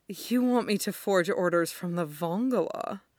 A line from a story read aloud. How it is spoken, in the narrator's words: all but sighed it